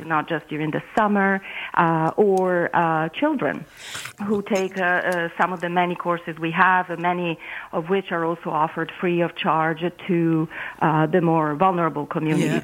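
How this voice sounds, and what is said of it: Slight Italian accent. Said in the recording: “detecting a touch of an accent. It sounds to me like you're a beautiful Italian woman ... It's an Italian accent.”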